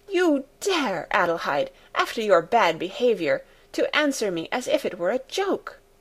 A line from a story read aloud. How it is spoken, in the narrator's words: With raised voice she exclaimed